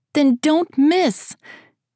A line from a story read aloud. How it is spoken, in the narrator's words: She shouted back to him and matched his grin